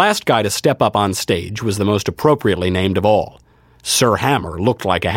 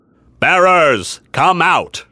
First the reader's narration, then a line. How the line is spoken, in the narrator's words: He had a deep, booming voice that seemed intended to reach the entire army where it stretched out over the plain